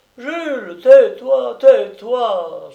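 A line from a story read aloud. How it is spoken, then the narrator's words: Woman pleading. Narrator (French): suppliait une femme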